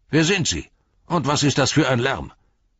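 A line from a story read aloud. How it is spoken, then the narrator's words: Called out. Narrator (German): rief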